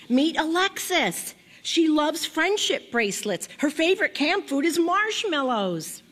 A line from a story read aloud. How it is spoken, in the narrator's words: my mom shouted